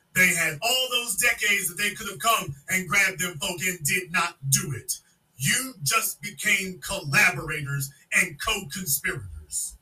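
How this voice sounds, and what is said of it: Yelling, loud angry speech. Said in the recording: “You damn right I'm yelling it.”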